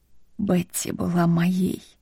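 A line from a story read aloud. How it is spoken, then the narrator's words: Hoarse secretive whisper. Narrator (Russian): Прохрипел он шепотом так, будто делился с ней секретом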